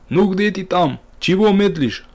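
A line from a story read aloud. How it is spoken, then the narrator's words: Loud shout. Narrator (Russian): Подождав несколько минут и так не услышав звука шагов парламентера, Ахмат громко крикнул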